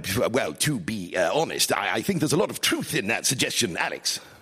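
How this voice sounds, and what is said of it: Impersonation of Boris Johnson. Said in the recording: “This is an impersonation of him on a BBC radio comedy on Radio 4. It's called Dead Ringers.”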